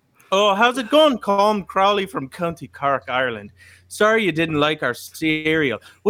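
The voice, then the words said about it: Put-on Irish accent. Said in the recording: “I want to work on my Irish accent. So here it goes.”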